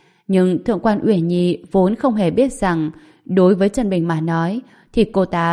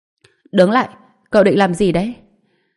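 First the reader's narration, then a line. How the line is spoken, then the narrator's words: Cold. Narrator (Vietnamese): có người lạnh lùng nói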